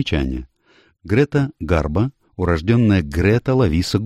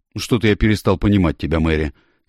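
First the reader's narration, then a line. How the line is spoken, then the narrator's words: Angry. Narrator (Russian): сердито произнес Тед Бигланд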